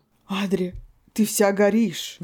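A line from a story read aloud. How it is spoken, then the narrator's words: Agitated. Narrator (Russian): Взволнованно сказал блондин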